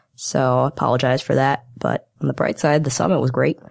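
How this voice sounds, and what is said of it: Voice sounds sick. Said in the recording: “my voice sounds funny, it's because I was on a company summit for the past week and got a little bit sick”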